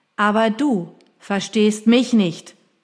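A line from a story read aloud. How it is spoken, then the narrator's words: Roaring. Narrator (German): brüllte ich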